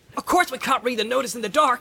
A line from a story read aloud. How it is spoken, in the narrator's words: Sam shouted back